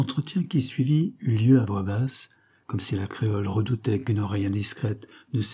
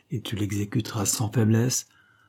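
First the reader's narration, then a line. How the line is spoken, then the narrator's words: Muffled voice. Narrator (French): répondit d'une voix sourde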